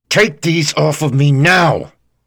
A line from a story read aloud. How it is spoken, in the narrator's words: he yelled through gritted teeth